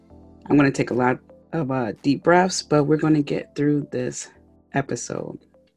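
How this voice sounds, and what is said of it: Raspy, hoarse voice. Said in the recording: “I have some kind of throat issue going on... I sound a little raspy.”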